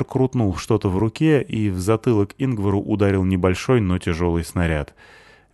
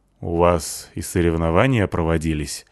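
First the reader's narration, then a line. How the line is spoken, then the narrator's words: Gloomy question. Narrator (Russian): спросил Ингвар мрачно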